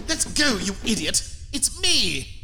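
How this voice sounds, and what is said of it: Snooty accent. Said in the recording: “a less snooty accent”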